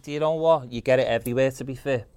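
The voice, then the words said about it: Strong regional Liverpool accent. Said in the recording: “That's not you doing an accent yet, is it? ... People laugh at my own voice more than anything.”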